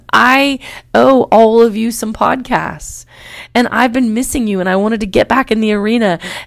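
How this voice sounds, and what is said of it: Voice still sounds a little sick. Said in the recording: “I am coming off a wicked upper respiratory infection, and you can probably still hear it in my voice a little bit”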